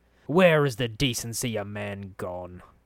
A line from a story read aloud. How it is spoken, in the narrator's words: Farid grumbled